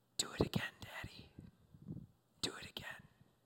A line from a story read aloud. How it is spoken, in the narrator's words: you hear the son whisper to his dad